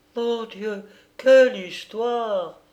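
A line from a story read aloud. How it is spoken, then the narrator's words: Nanny exclaiming. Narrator (French): s'écriait la nounou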